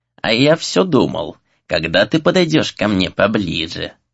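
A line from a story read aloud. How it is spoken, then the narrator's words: Creaky rasp. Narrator (Russian): проскрипел тот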